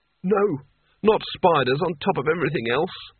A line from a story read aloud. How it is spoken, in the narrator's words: moaned Rincewind